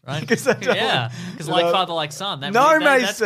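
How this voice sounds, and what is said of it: Usual voice. Nothing is said of it.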